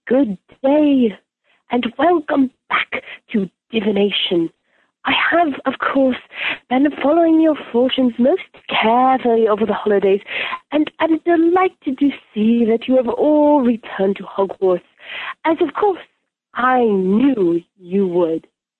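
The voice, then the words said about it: Impression of Professor Trelawney. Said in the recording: “impersonating Professor Trelawney ... Very good.”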